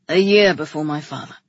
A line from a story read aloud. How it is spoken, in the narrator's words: he said, his voice rough and low